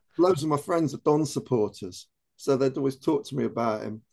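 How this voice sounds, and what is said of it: Aberdeen Scottish accent. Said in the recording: “as you can tell from the accent, I spent 20 years of my life living in Aberdeen”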